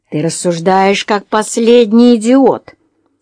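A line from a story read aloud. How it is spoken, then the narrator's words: Angry grumble. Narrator (Russian): сердито пробурчала миссис Френч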